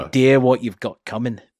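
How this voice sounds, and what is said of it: Restrained put-on Scouse accent. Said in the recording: “pick up a Scouse accent... I'm trying to actually not overdo the accent... It was actually much more like this”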